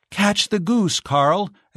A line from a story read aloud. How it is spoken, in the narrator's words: exclaimed Giselle